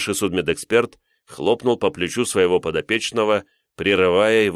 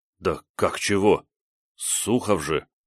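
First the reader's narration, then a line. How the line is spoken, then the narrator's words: Mumbling young man. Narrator (Russian): промямлил парень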